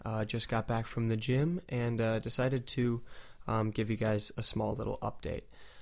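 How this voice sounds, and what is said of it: Groggy, morning-sounding voice. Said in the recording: “you can kind of hear the mourning in my voice right now. A little bit groggy.”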